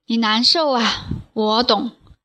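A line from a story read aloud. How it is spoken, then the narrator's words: Sorrowful sigh. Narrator (Chinese): 扁鹊的一脸平和忽然变成哀伤，他叹了气说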